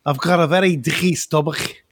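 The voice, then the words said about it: Steven Gerrard's strong Liverpool accent. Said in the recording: “Stephen Gerrard ... He's very like that, isn't he? You know, he's like that. He's very, very, very severe accent like that.”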